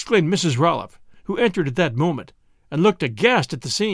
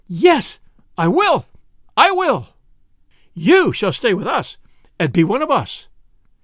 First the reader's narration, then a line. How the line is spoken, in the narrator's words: exclaiming